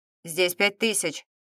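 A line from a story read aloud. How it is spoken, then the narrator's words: Even unfamiliar male voice. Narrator (Russian): ровным тоном проговорил незнакомый мужской голос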